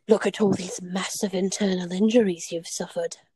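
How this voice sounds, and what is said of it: Poorly done put-on accent. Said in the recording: “I'm so sorry for the accent. That was terrible too.”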